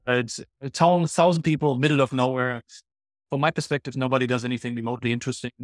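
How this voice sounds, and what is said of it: Non-native English accent. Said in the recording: “I'm not from Alabama with my accent ... later in life, I got to learn English”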